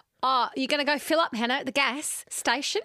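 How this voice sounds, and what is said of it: Put-on Australian accent. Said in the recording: “do an Australian accent... That's pretty good.”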